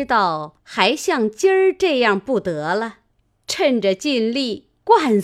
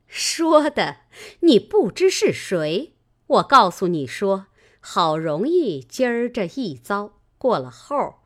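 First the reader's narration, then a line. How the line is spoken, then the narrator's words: Laughing. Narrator (Chinese): 尤氏笑道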